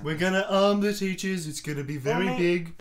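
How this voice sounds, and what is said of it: Donald Trump impression. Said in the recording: “That's not a Trump accent.”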